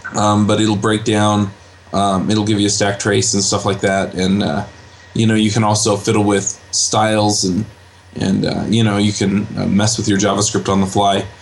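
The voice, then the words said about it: Congested voice with a cold. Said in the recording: “I have a little bit of a cold.”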